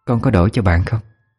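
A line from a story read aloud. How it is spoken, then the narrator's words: Whispered question. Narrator (Vietnamese): cô hỏi nhỏ thì thầm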